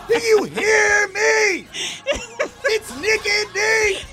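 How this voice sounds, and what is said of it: Yelling loudly. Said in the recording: “I'm yelling at you right now!”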